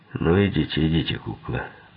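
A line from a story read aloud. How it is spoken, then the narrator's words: Grumbling. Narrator (Russian): проворчал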